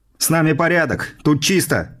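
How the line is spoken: Shouted out. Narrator (Russian): выкрикнул я

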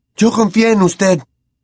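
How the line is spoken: Shouting, voice faltering. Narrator (Spanish): gritó a Lupin, flaqueándole la voz

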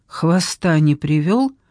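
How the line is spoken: Plain. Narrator (Russian): спросил Джордан

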